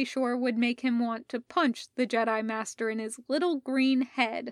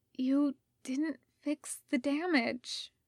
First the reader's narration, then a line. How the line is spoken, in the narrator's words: Rodney said, his voice breaking